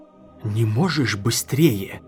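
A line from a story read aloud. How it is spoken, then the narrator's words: Repeated hiss. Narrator (Russian): прошипел он в 12-й раз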